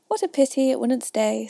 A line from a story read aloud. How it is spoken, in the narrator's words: sighed the lorry